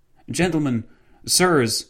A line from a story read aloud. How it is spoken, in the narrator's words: the policeman exclaimed